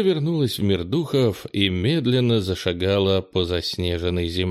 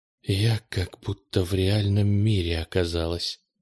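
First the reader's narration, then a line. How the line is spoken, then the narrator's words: Whisper. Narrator (Russian): прошептала она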